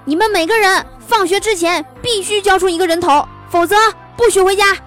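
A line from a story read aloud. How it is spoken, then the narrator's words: Very angry shouting. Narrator (Chinese): 美术老师特别生气地对我们大喊道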